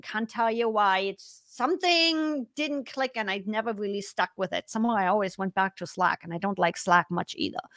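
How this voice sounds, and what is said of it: German accent. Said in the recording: “me as German with the accent”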